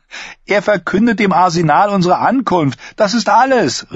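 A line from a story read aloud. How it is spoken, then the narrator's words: Called out. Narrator (German): rief er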